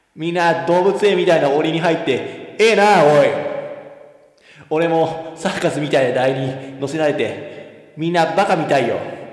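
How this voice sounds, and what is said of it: Imitates another person's voice, with echo. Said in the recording (Japanese): “モノマネさせて、モノマネ。うん。ちょっと、まあ、あエコーもかけてもらって、ね。エコーもかけて。あのね、みんな誰のモノマネをしてるかちょっと当てて。”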